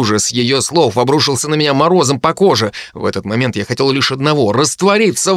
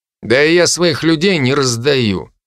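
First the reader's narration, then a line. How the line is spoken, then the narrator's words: Through gritted teeth. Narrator (Russian): процедил Генри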